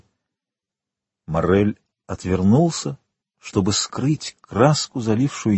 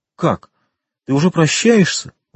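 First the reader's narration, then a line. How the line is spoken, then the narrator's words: Exclaiming. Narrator (Russian): воскликнула Жюли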